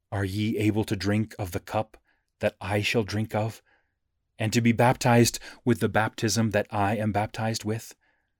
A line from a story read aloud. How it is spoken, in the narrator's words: Jesus gently but impressively asked